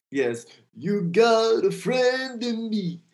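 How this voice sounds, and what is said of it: Imitates another person's singing voice. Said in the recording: “your best Randy Newman impression”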